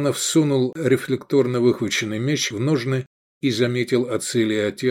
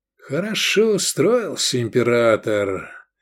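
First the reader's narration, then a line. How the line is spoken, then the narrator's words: Drawling. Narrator (Russian): протянул Эдик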